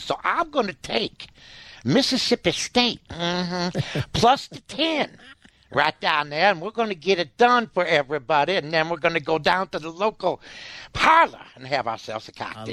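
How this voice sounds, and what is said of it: Put-on Mississippi accent. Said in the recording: “That's a perfect Mississippi accent.”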